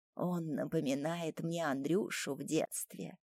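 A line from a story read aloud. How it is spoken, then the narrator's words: Tender, quiet speech. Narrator (Russian): с нежностью и говорит мне тихонько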